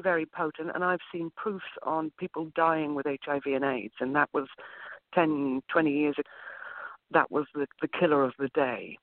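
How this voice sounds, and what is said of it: Speaks with a noticeable accent. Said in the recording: “I love your accent.”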